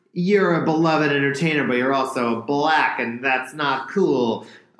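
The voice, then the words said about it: Imitates another person's voice. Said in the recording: “I'm doing my John Mulaney voice now.”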